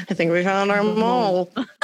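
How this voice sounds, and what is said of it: Imitates a TV character's voice. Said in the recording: “This is my impression of it.”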